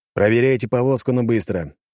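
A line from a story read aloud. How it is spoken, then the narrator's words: Confident tone. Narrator (Russian): уверенным тоном заявил я им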